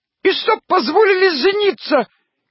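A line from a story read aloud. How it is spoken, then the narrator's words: Thin squeak. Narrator (Russian): пискнул тоненький голосок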